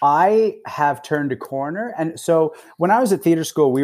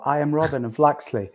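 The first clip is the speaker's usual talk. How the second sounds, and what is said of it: Deliberately dreadful put-on accent. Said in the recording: “butchering an accent ... That accent's dreadful.”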